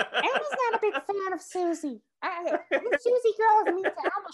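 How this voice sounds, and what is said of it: Usual voice. Nothing is said of it.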